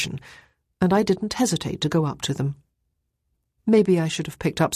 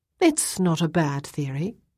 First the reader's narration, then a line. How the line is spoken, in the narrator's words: I said